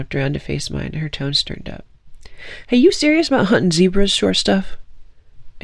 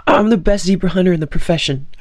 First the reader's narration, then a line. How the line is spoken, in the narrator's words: I blurted suddenly